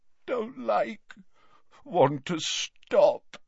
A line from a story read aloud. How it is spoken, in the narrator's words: moaned Dumbledore